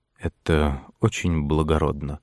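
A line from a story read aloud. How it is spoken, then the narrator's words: Quiet, submissive, grateful. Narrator (Russian): сказал рыцарь тихим покорным голосом, как будто ему была оказана неожиданная милость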